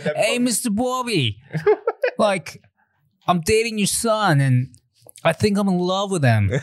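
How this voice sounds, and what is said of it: Thick put-on Boston accent. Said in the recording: “a really thick Boston accent or like a New England”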